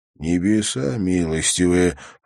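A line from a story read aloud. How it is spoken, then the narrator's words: Whisper. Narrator (Russian): прошептал Харри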